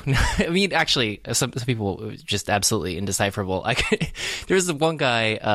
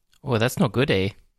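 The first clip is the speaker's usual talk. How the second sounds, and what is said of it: Put-on Canadian accent. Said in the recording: “Is that your Canadian accent that you picked up when you were on vacation?”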